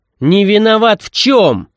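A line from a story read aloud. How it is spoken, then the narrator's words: Yelling. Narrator (Russian): заорал я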